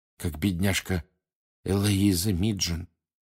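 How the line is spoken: Quiet. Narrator (Russian): тихо сказала Ханна Эбботт из Пуффендуя

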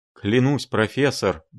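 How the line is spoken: Nervous muttering. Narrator (Russian): бормотала дама, дрожащими пальцами

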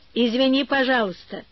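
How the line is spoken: Cheerful. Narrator (Russian): весело сказал Иван Гермогенович

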